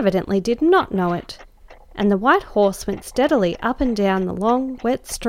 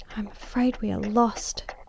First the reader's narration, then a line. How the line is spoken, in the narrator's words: she whispered in my ear